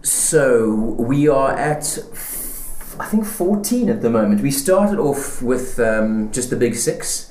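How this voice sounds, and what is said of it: South African accent. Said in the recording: “I'm South African, as you can hear from my accent.”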